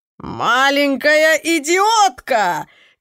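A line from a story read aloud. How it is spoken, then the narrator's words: Shouted. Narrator (Russian): крикнул он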